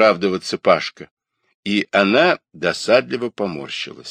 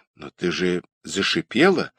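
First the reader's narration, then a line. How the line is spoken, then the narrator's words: Bewildered remark. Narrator (Russian): растерянно заметил Родионов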